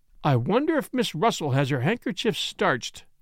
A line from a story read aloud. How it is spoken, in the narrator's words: exclaimed on the spur of the moment